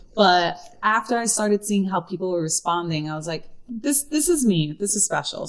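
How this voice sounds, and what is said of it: Brooklyn accent. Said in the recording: “that Brooklyn accent”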